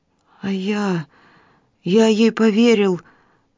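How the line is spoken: Stammering babble, then crying. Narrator (Russian): Заикаясь, пролепетал Элис и расплакался

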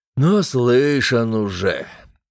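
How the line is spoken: Grumbled. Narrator (Russian): буркнул

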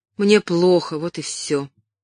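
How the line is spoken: Mother nearly snapping. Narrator (Russian): чуть ли не огрызнулась мать

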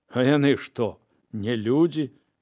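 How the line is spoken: Smiling. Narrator (Belarusian): усміхнуўся Клеонік

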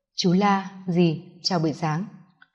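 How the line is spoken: Soft quiet speech. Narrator (Vietnamese): Đôi môi mỏng khẽ mở

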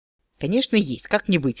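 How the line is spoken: Snorting. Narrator (Russian): хмыкнул Дроу

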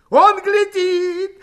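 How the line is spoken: Wild shout. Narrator (Russian): дико закричал Ермаков

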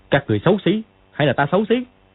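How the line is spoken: Barking shout. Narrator (Vietnamese): Dương Quá quát

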